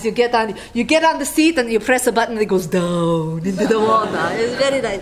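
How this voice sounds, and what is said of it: Put-on Icelandic accent, sounds Italian. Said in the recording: “sound Italian, but I'm using my Icelandic accent”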